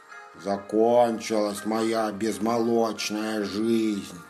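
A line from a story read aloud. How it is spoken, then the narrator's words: Bear cub grumbling. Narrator (Russian): забурчал медвежонок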